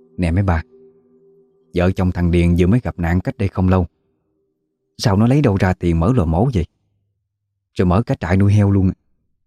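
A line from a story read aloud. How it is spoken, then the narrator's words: Whisper. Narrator (Vietnamese): Một người khẽ nói nhỏ với mấy bà còn lại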